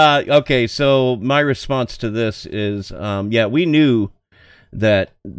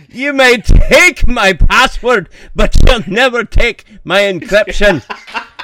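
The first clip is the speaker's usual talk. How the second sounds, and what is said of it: Put-on Braveheart-style Scottish accent. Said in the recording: “You were kind of channeling Mel Gibson from Braveheart, weren't you? ... that's a fun word to say with that accent”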